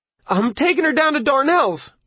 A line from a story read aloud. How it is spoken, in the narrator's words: Arnie yelled